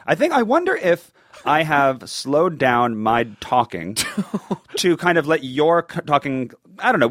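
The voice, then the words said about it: Clear radio voice, New York lilt. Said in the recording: “I love your radio voice ... You have a really good voice for this as well ... You speak clearly ... The New York lilt really delights me ... You've got a really nice hosting voice”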